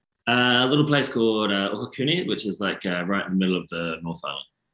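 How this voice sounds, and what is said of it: New Zealand accent. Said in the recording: “I did notice the accent, man. Whereabouts in NZ? ... he was New Zealand as well ... Kiwis”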